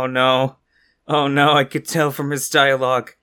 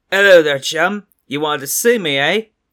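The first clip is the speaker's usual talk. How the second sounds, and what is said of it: Poorly done British accent. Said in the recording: “He's British. ... I'm terrible with accents.”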